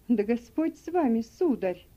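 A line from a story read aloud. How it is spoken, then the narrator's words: Dismayed exclamation. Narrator (Russian): сокрушенно воскликнул Сэм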